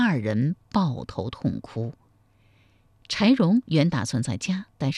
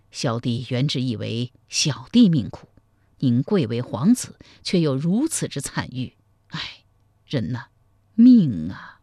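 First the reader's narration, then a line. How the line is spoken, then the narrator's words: Heavy sigh. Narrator (Chinese): 赵匡胤听了柴荣自述别后之事，喟然长叹道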